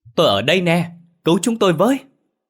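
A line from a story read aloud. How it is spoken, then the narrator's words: Excited continuous yelling. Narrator (Vietnamese): Ba Hào miệng cứ liên tục la hét phấn khích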